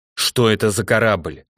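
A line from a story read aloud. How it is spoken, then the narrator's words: Sharp question. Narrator (Russian): резко спросила старшая у Длинного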